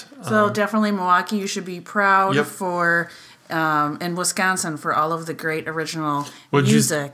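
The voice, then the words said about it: Wisconsin regional accent. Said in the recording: “Did you say Wisconsin? ... The accent's coming out. Well, it's always out. ... I'm from Wisconsin too ... if you can get past her accent”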